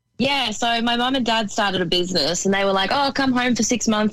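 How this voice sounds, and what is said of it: Australian accent. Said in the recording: “by accent, everyone can hear that you're all, you know, of the Australian descent”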